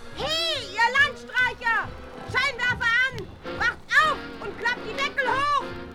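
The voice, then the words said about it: Sudden loud shouting. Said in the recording (German): “Schrei doch nicht auf einmal so”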